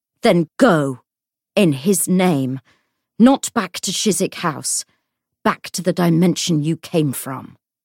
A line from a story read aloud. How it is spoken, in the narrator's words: he said savagely